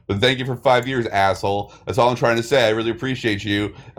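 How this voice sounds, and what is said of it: Yelling loudly. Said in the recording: “I don't know why I'm yelling. I just can't stop.”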